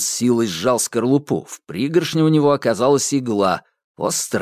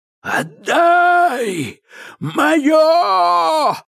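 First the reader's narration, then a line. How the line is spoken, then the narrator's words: Howling. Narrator (Russian): взвыл Кощей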